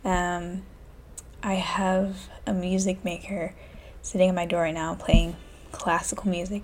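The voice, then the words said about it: Low, quiet voice. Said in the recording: “My voice is kind of low... That's why my voice is so low.”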